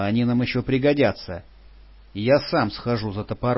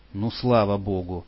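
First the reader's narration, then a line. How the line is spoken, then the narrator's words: Mutter. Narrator (Russian): пробормотала Патрушева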